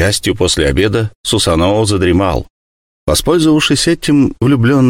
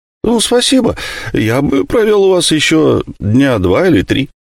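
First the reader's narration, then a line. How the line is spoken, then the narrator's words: Joyful reply. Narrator (Russian): Асихарасикоу радостно ответил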